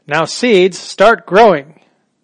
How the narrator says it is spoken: Toad put his head very close to the ground and shouted

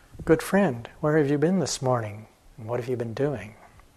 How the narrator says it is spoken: speaking gently, she asked

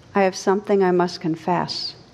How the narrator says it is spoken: He said weakly

